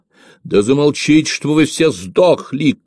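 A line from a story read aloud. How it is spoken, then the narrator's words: Shouting over noise. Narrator (Russian): крикнул он, услыхав, как дружно заорали разбуженные рывками и толчками ребята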